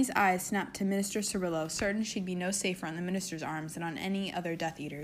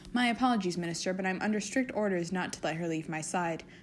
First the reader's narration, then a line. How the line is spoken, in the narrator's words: Draco quickly replied